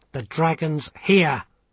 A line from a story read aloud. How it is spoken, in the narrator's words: Vimes snapped